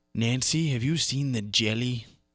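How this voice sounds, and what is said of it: Ronald Reagan impression. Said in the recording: “Those are both great Reagan impressions.”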